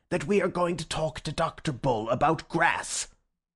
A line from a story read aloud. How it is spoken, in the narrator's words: asked the professor furiously